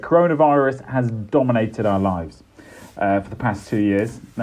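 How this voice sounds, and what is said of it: Serious voice. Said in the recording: “serious voice”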